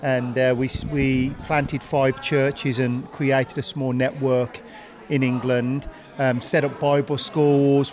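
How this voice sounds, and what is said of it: Non-local accent. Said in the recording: “from the accent, you can tell I'm not from here”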